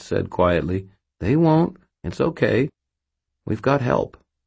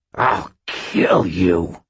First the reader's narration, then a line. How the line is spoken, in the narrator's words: hissed Aristides